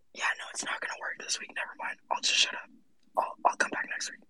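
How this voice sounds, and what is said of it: Lost voice, faint whispery speech. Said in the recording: “My voice is gone... Voice is definitely gone... Spooky whispers”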